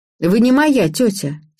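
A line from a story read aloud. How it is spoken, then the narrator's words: Angry. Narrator (Russian): сердито заявила Ира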